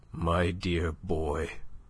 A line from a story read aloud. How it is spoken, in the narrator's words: His lip trembled, and there was a huskiness in the voice that murmured